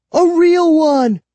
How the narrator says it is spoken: I shrieked

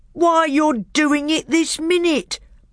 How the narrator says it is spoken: bellowed Trumpkin

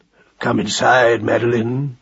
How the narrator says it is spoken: he said in his deep growl

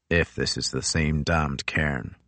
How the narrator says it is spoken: muttered Crozier

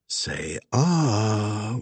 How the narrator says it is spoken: Wags whispered

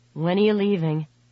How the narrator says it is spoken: He asked in a resigned voice

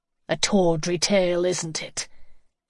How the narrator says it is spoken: The sneer in his voice stabbed hurtfully

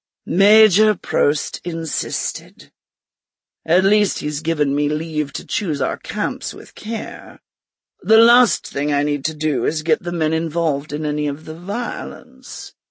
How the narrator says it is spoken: he sighed

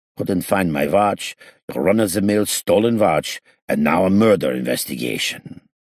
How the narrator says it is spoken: While we were walking, he grunted

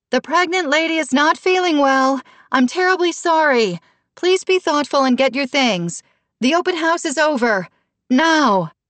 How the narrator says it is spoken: cupped her hands around her mouth, and yelled

